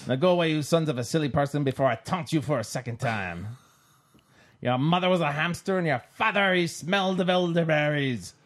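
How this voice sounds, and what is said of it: Put-on French accent. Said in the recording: “Why are you talking with a French accent all of a sudden? ... this outrageous accent”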